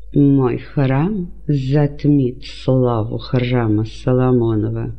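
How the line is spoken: Ironic, through gritted teeth. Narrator (Russian): Со скрытой иронией процедил сквозь зубы Ирод

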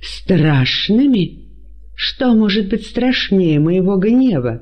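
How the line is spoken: Angry exclamation. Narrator (Russian): воскликнул Ирод

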